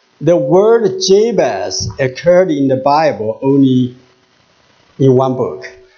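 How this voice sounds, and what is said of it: English with a Chinese accent. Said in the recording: “my English with Chinese accent”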